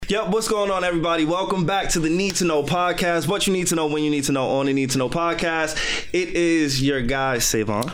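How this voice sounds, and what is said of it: Slightly hoarse voice. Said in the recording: “I'm still a little hoarse from last week. I was like recovering from a sickness.”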